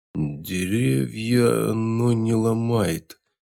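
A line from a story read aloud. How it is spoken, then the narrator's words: Uncertain bear. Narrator (Russian): неуверенно ответил медведь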